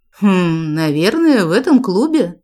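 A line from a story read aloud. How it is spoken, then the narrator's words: Muttered. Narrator (Russian): пробормотала рыжая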